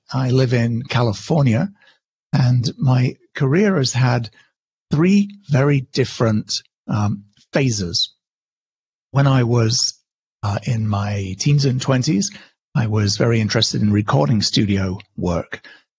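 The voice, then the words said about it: British accent. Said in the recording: “as you can hear from my accent, I'm originally British.”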